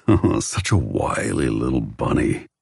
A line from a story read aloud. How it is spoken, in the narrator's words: he growls